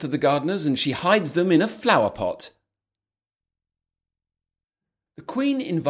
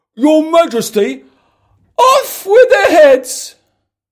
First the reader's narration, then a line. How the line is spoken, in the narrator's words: the Queen screams